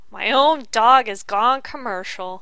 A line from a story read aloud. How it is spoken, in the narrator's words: Charlie Brown wailed